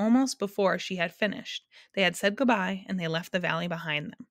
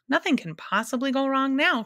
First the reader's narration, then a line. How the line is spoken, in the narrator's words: cried the humbug happily